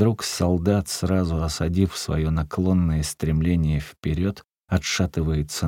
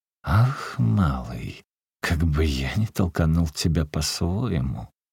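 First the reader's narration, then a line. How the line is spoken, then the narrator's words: Indignant, through clenched teeth. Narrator (Russian): как бы не выдержав такой наглости, Шаша сквозь зубы говорит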